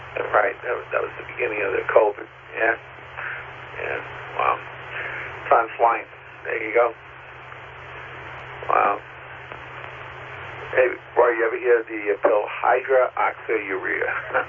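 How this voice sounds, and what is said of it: Strained, failing voice. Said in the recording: “I think I'm losing my voice”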